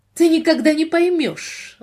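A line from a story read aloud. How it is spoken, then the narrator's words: Indignant reply. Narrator (Russian): возмущенно ответила она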